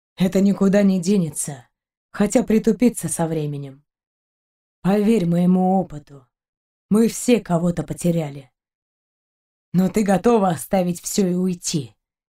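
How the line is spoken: Gentle question. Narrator (Russian): мягко спросил Шейн

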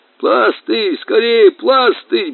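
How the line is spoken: Gurgling, wheezing. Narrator (Russian): булькал и хрипел капитан

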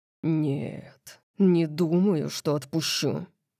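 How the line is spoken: Growled. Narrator (Russian): прорычал он

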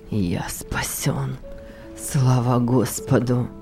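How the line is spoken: Young man muttering. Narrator (Russian): вновь пробормотал молодой человек

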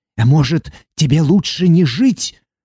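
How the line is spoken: Hissing. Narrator (Russian): прошипел

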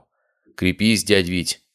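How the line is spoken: Smirking grunt. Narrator (Russian): хмыкнул я

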